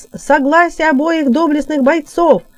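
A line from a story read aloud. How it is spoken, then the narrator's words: Loud proclamation. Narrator (Russian): прокричал Герольд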